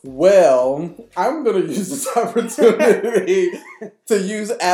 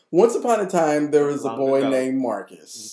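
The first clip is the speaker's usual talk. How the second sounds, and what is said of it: Imitates another person's voice. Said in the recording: “my best Wendy Williams impersonation”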